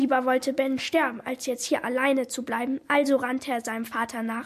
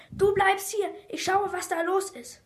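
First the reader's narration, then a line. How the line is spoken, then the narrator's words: Called out. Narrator (German): Bens Vater überhaupt nicht mehr müde, rief dem verängstigten Kind zu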